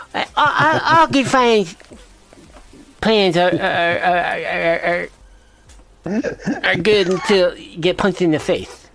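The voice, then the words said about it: Poor imitation of another person's voice. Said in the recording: “really hoping you were going to say that with a Mike Tyson accent ... horrendous, Mike Tyson's accent”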